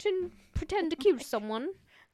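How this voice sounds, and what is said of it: Poor put-on British accent. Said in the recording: “talk in a British accent ... That was a terrible example of it”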